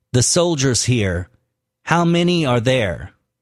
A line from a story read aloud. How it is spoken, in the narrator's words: said Compton